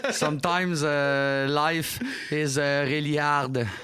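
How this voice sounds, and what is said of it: English with exaggerated Québécois accent. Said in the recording (French): “En faux français ... Je voulais au moins que mon accent québécois, mon accent anglais sonne québécois.”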